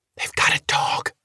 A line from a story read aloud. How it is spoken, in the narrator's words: Robin said it in a whisper